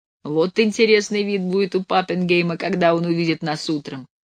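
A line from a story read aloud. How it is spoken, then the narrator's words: Laughing. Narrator (Russian): смеялся Левка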